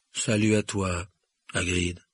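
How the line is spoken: Deep, sad voice. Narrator (French): répondit Ronan d'une voix grave et triste

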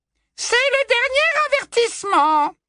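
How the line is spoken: Smooth, magically amplified voice. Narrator (French): dit la voix doucereuse amplifiée par la magie pour couvrir les hurlements désespérés de l'accusé

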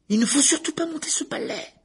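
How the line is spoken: Shrill protest. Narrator (French): protesta Hermione d'une voix perçante

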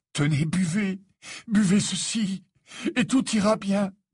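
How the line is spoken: Desperate. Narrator (French): dit Harry d'un ton désespéré

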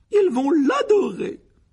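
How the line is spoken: Delighted exclamation. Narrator (French): s'exclama la tante Pétunia avec ravissement

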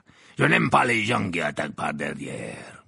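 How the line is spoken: Growled. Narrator (French): grogna-t-il

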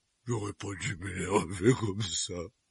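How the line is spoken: Regretful. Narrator (French): dit-il d'un ton de regret

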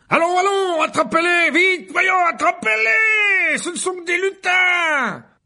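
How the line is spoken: Yelling. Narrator (French): hurla Lockhart

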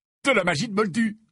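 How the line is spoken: Cheerful voice. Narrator (French): dit Fred d'une voix enjouée

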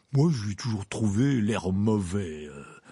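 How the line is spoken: Man's grumble. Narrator (French): avait grogné un homme au comptoir

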